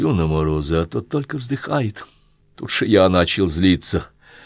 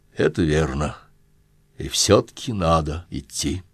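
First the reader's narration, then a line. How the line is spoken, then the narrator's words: Very calm. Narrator (Russian): вдруг очень спокойно так отвечает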